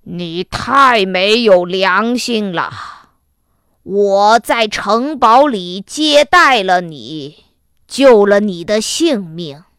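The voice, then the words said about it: Frightening monster voice. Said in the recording (Chinese): “怪兽用可怕的声音说”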